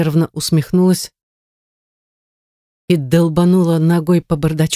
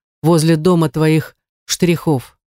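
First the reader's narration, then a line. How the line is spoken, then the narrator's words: Through gritted teeth. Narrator (Russian): сказал он сквозь зубы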